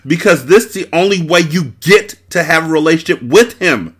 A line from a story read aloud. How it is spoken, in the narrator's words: Breeze shouted in frustration